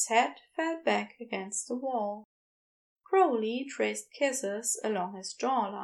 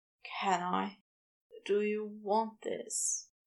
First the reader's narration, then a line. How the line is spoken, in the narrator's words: breathed